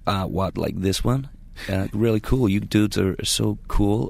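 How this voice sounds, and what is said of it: Put-on American accent. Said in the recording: “there's a bit of an American twang ... Just do it, the American accent. ... I detected a little bit of George W.”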